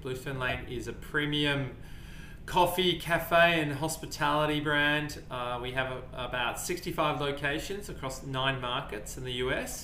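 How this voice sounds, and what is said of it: Australian accent. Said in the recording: “I'm originally, as you could tell from the accent, from Melbourne, Australia.”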